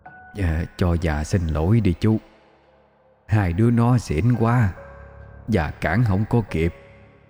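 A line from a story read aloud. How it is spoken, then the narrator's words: Hoarse warm voice. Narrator (Vietnamese): một giọng nói khàn khàn âm ấm vang lên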